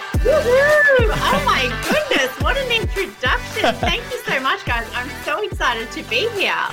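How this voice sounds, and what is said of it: Australian accent. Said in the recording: “she also has a super cool accent ... Australian queen”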